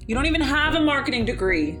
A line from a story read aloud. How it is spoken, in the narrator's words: yelled Ruby from downstairs